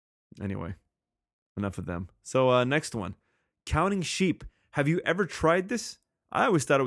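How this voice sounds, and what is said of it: Usual voice. Nothing is said of it.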